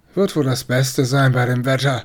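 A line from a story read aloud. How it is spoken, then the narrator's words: Mumbled. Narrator (German): nuschelte der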